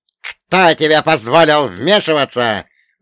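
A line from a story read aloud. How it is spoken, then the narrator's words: Thunderous roar. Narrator (Russian): взревел Вольга Богданович, и его голос гремел, как зимний буран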